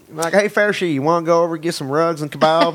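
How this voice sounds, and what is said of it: Put-on Southern US accent. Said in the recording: “I have like a weird Southern Muslim thing going on ... Southern accent's really good”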